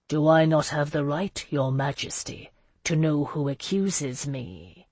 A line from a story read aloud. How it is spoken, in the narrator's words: she asked, her voice low and dangerous